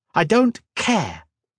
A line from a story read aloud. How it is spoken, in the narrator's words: snapped